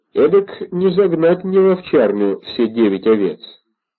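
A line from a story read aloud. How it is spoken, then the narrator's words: Calm. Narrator (Russian): спокойно ответил он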